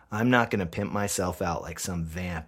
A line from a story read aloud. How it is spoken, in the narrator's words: I growl